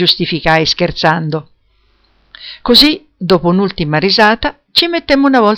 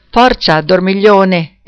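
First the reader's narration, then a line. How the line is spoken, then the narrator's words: Exclaiming. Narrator (Italian): esclamò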